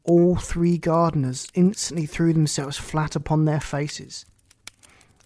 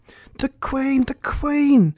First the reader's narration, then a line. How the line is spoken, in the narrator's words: 5, who had anxiously been looking around the garden, called out